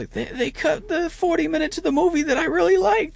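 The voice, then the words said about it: Imitates another person's voice. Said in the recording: “That's my terrible Tom Hardy as Venom impersonation.”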